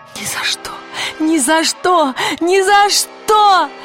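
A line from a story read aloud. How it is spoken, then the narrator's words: Shouting. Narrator (Russian): закричала она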